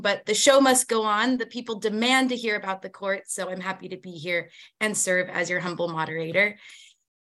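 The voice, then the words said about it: Hoarse, strained voice. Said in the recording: “I seem to be losing my voice this morning”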